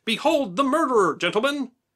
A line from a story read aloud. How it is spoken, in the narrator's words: cried